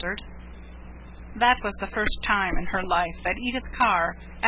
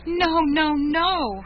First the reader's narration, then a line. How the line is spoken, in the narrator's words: she cried